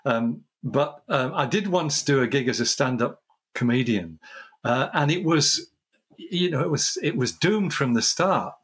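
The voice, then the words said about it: English accent. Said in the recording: “an English person, put somebody with an English accent”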